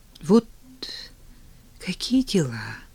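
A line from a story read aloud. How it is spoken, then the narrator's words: Barely audible. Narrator (Russian): Еле слышно заговорила Лера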